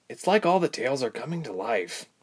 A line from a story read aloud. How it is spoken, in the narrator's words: Ilse muttered